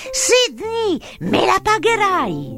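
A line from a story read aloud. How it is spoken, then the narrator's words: Shouting. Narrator (Italian): gridando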